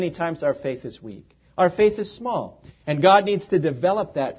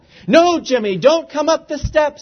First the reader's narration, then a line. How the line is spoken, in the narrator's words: Aretha shouted